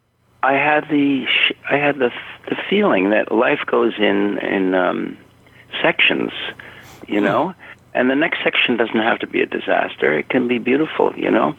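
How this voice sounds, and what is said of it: Emotional, choked-up voice. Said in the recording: “I'm all choked up.”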